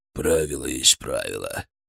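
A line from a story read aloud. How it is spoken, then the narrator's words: Muttered grumble. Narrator (Russian): пробурчал я, не поднимая головы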